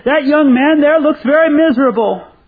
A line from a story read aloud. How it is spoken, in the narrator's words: he called out to the back of the room and said to the man, he said